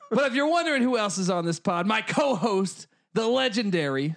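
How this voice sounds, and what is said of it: Usual voice. Nothing is said of it.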